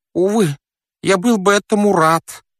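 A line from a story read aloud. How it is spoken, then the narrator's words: Hoarse rasp. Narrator (Russian): просипел он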